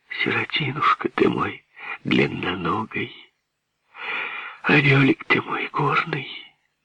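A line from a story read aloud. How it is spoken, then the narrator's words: Tearful whisper. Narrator (Russian): пряча слезу, шептала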